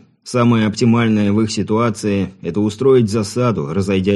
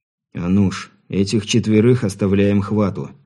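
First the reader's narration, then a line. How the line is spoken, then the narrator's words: Quiet speech. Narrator (Russian): тихо произнес Сергей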